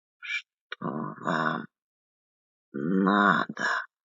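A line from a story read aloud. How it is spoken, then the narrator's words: Slow hoarse croak. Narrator (Russian): Слова из его очерствелой гортани выходили медленно, с хриплым клёкотом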